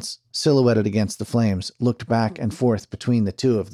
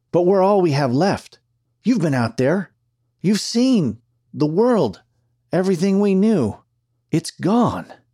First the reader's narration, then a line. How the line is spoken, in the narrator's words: Dance pleaded